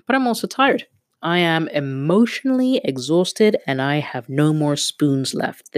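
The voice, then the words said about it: Hoarse, strained voice. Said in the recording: “my throat is seven shades of messed up ... my voice is so hoarse”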